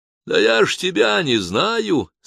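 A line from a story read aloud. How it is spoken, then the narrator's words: Speaking Catalan, joking. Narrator (Russian): сказал по-каталонски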